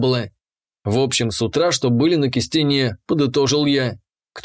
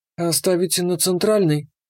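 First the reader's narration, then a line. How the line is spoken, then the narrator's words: Squeak, interrupting. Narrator (Russian): пискнула Иша, вклинившись в риторическую паузу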